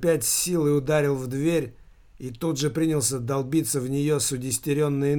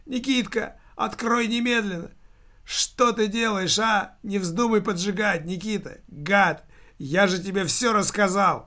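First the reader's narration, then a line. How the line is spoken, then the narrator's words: Dead man shouting. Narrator (Russian): Мертвец прокричал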